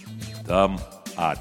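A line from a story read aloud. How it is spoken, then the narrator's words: Plain. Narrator (Russian): ответил Колесник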